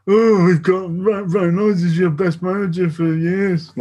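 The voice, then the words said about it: Imitates a football fan's voice. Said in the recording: “that's my impression of the collective Sheffield United”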